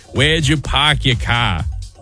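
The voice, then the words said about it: Deliberately bad Boston accent. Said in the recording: “the least attractive accent in the country is the Boston accent ... Also a terrible accent”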